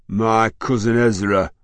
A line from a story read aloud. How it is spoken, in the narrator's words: growled Rachel